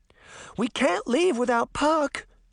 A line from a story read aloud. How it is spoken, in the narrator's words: Daphne cried